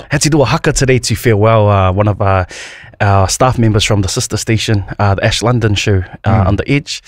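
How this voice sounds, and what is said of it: Hoarse, strained lost voice. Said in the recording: “I lost my voice, man. ... I think I used my voice, like, my voice box. No, all gone now.”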